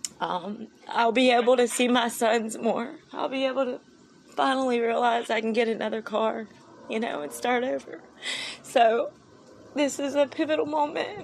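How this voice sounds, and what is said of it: Emotional, choked-up voice. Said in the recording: “I'm sorry I'm getting emotional”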